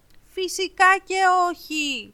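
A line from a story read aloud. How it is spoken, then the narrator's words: Shouting over a storm. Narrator (Greek): φώναξε δυνατά η Άννα για να ακουστεί όσο περνούσαν μέσα από τη φοβερή και τρομερή θύελα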